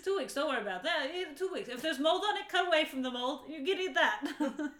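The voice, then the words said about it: Imitating a mother's accent. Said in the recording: “your mom's accent?”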